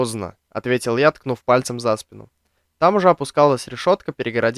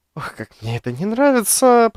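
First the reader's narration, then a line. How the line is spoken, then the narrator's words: Muttering. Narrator (Russian): пробормотал я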